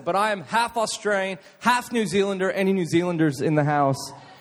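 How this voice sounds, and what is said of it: American accent. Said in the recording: “I am not American. I just put on the accent ... I went to an American international school, and that's why I have this accent”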